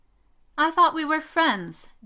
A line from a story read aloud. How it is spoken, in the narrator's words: Vivian whined